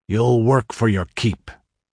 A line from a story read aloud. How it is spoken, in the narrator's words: snarled the Hawk